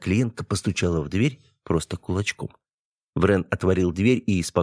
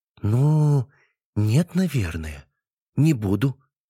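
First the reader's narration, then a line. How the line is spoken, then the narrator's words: Drawn out, slightly confused. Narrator (Russian): немного растерянно протянула женщина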